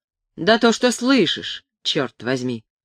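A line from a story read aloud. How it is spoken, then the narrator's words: Angry, curt. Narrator (Russian): сердито отрезал Гудспет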